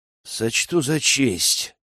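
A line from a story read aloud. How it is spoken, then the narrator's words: Through gritted teeth. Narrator (Russian): проговорил сквозь зубы Рэм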